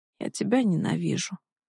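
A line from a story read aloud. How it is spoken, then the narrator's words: Barely audible. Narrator (Russian): едва слышно произнесла я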